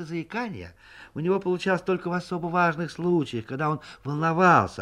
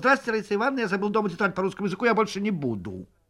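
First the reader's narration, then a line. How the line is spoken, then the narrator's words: Smooth rapid recitation. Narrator (Russian): гладко и быстро выговаривал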